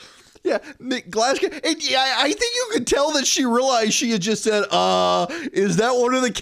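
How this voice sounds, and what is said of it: Usual voice. Nothing is said of it.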